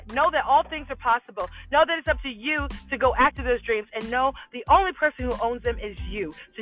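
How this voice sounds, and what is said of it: Passionate yelling. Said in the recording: “sorry for yelling. I'm just so passionate”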